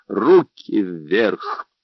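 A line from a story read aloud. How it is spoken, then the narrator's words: Steely command. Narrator (Russian): стальным голосом приказал Джордж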